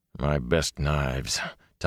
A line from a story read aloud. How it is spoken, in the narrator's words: Tom muttered